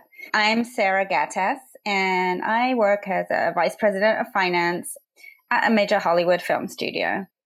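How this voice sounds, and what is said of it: English accent. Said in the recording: “my accent is a little funny. I'm from England”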